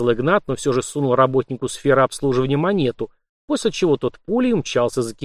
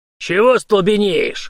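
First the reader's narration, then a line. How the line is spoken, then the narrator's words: Old soldier's snarl. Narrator (Russian): рыкнул старый служака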